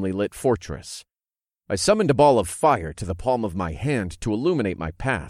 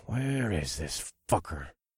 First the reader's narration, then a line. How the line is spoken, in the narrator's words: muttered under my breath